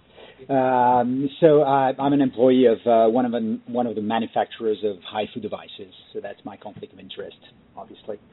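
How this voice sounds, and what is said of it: Speaks English with a foreign accent. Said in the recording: “Despite the accent”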